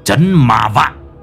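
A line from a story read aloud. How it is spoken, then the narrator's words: Harsh stressed voice. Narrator (Vietnamese): Lão Năm gằn giọng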